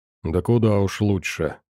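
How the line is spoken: Gloomy remark. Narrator (Russian): мрачно заметил Филин

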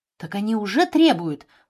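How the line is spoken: Female exclamation. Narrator (Russian): воскликнула Жанна

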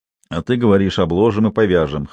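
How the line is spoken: Snorting. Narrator (Russian): хмыкнул Максимов

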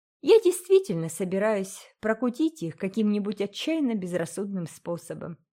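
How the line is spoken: Cheerful announcement. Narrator (Russian): весело объявила Энн

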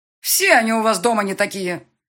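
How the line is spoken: Very loud voice. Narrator (Russian): Голос директрисы звучал так громко, что слышно было и ему, и отцу

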